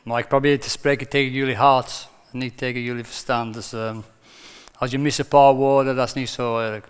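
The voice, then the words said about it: Non-native accent in Dutch. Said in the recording (Dutch): “Ik heb die accent, hè, dus het is altijd een beetje anders.”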